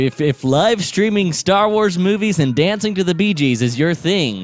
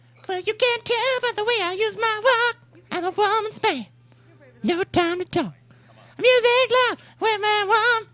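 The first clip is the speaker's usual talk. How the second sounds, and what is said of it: Sung impression of a pop group. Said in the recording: “my Bee Gees impression”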